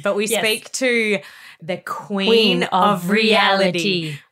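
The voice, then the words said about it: Put-on American accent. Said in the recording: “I don't know why I say it in an American accent”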